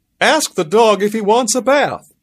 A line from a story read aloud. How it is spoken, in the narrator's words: He yelled